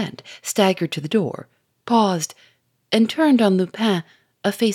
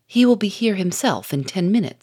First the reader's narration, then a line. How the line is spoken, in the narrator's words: he said